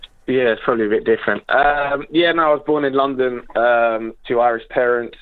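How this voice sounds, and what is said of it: English accent. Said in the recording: “the first Gaelic footballer with an English accent ... why you have an English accent”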